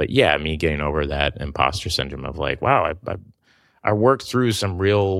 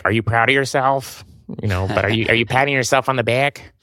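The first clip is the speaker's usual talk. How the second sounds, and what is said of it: Put-on Chicago accent. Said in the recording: “I don't know why I just gave her a Chicago accent. She doesn't sound like that at all.”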